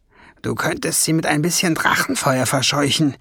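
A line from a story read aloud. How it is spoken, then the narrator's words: Hiss. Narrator (German): zischte Schwefelfell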